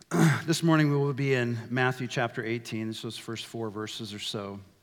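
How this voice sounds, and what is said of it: Slightly hoarse voice. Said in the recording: “my voice sounds a little hoarse”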